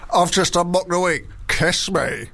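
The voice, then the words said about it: Sean Walsh impression. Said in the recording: “good Sean Walsh impression”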